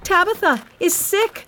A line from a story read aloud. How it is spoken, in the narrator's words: she shouted to all the poor widows from the church